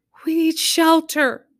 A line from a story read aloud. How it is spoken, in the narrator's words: some shouted